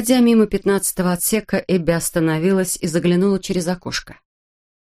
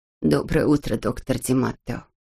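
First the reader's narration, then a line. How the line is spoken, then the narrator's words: Quiet. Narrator (Russian): тихо сказала Нина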